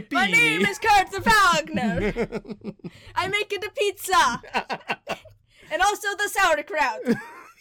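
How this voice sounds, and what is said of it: Bad German accent, sounds Italian. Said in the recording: “I cannot do a German accent. ... It's a little bit Italian. I'm a German Italian.”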